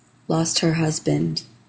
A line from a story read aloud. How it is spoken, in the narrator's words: Kevna murmured afterwards, his voice tinged with pain